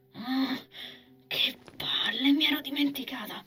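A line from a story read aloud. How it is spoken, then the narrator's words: Woman whispering. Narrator (Italian): bisbigliò la donna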